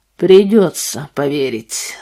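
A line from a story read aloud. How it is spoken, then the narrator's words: Heavy voice. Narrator (Russian): сказал он тяжелым голосом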